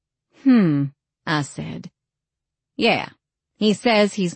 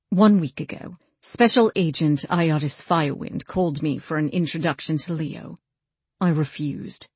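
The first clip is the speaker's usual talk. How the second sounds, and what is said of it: Irritated British accent. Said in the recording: “In his best, most ticked-off British accent”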